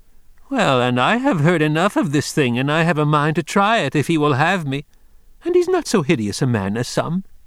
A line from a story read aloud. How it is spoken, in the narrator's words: she said, with her face red and laughing